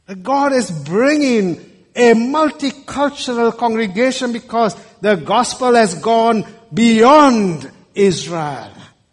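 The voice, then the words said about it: Non-native English accent. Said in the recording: “You've coped with my accent. ... You've coped with my English.”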